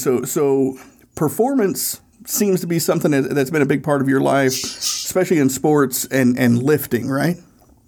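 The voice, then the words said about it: Hoarse, strained voice that cracks. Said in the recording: “My voice is a little shot from shoveling, so if you hear me crack a little bit”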